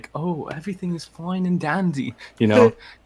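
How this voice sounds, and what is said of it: Posh British accent. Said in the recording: “the British dude. He was just all posh ... that's really good.”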